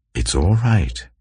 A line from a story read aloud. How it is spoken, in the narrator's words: he said